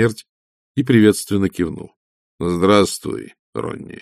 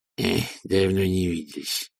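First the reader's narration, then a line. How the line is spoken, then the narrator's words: Grumbled mutter. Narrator (Russian): буркнул Чума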